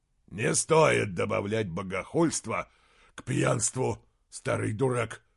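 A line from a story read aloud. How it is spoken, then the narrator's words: Growl. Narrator (Russian): прорычал Изгримнур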